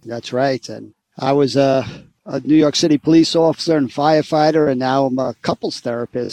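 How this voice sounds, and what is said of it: New York accent. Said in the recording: “you can hear ... is from New York, his accent.”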